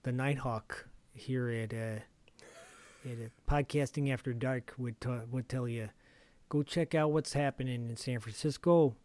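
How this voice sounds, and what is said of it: Bad put-on Chicago accent. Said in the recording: “This is a terrible Chicago accent.”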